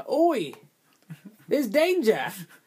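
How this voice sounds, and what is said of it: Put-on Australian accent. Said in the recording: “I feel like I do a better Australian accent than that guy did.”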